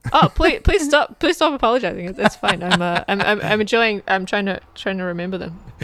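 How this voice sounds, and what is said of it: New Zealand accent. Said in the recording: “the lovely Kiwi accent”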